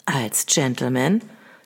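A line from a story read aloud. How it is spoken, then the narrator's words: Soft-voiced suggestion. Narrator (German): schlug er mit weicher Stimme vor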